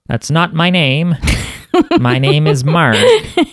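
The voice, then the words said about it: Nerdy put-on voice. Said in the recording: “nerd voice”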